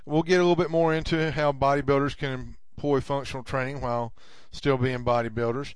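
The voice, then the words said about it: Slight Southern drawl. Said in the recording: “As you can tell, I'm from the South. I've got a bit of a Southern drawl.”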